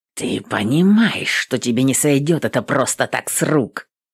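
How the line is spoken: Venomous hiss. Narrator (Russian): Ядовито шипел Бруно

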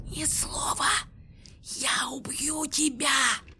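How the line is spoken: Catlike hiss. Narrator (Russian): прошипела блондинка, как кошка

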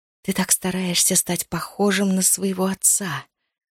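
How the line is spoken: Hiss. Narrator (Russian): прошипела

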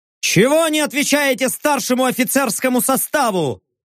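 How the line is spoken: Angry bark. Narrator (Russian): Сердито рявкнул я

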